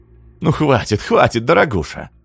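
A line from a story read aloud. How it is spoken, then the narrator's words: Laughing. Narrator (Russian): засмеялась тетя Зина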